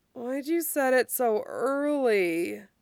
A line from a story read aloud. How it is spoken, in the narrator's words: Isaac moans